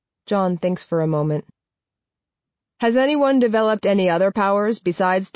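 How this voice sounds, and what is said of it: Usual voice. Nothing is said of it.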